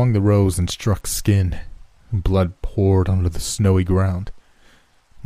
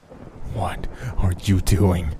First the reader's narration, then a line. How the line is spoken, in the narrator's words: in a low whisper, the voice pleaded with me